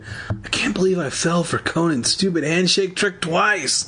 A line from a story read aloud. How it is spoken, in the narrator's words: Evan wailed